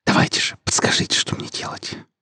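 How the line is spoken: Whisper. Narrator (Russian): прошептал Вадим

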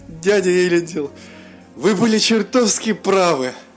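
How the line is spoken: Said through laughter. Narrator (Russian): Сквозь смех промолвил Мируэль

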